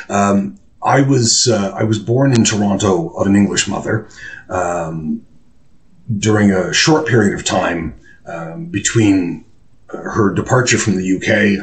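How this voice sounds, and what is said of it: Canadian English accent. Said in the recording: “my accent is not British. Canadian, if you please, not American.”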